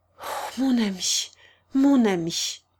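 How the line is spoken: Murmured at last. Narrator (French): murmura-t-elle enfin

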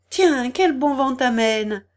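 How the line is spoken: Cheerful exclamation. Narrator (French): s'écria gaiement Denis

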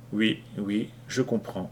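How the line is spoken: Weak reply. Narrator (French): répondit-elle faiblement

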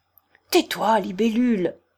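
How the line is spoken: Growling. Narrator (French): gronda Lebedev

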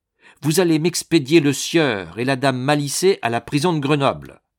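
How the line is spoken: Authoritative interruption. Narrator (French): coupait Dérigny d'un ton autoritaire

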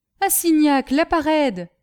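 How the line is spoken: Loud resonant exclamation. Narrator (French): s'exclama Castelrajac de sa voix sonore

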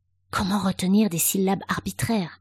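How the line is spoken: Whispered through teeth. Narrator (French): souffla Avril entre ses dents

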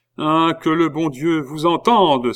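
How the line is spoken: Exclaiming. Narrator (French): s'écria Louis XVI

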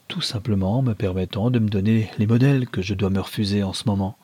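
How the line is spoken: Gentle, smiling. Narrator (French): dit-elle en souriant doucement

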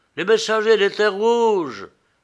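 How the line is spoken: Exclaimed. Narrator (French): s'écria Mano

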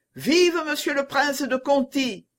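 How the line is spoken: Crowd shouting. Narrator (French): cria la foule

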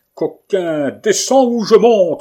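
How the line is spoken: Thunderous cry. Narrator (French): s'écria-t-il d'une voix formidable

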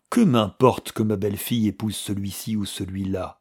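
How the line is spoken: Cold reply. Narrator (French): répondit froidement Philippe

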